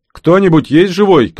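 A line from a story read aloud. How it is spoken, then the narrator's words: Shouting. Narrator (Russian): крикнул Юра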